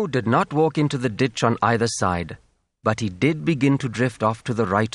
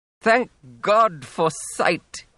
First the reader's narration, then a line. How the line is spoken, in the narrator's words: he cried